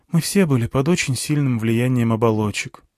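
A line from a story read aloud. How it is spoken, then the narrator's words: Sighing. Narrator (Russian): вздохнула Алька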